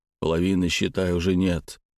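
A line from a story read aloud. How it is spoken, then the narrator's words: Quiet, man. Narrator (Russian): тихо продолжил мужчина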